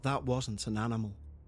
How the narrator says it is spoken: Ian, under his breath, said

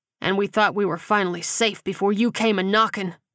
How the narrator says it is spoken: Simon growled

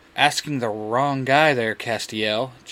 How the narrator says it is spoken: Jace says

